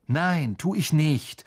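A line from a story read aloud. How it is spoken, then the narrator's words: Angry. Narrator (German): sagte Harry wütend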